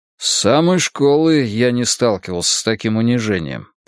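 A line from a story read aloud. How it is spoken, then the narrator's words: Grumbling. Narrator (Russian): проворчал он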